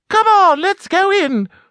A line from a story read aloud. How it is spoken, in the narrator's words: squeaked Kath with delight